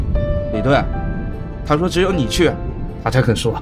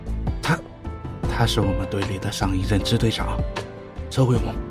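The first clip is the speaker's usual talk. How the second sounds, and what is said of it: Quiet, hushed speech. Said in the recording (Chinese): “小声说，生怕被别人听见”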